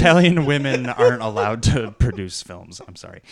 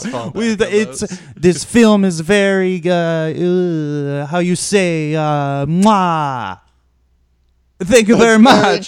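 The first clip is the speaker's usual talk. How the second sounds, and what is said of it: Stereotyped put-on Italian accent. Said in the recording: “an Italian accent ... I'm gonna do a stereotype accent right now.”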